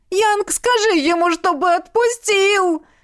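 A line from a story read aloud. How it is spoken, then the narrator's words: Whimpering. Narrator (Russian): захныкал жениха-братец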